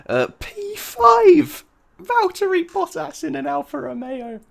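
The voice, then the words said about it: Excited, unusually high-pitched voice. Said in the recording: “I don't know why my voice has gone so high”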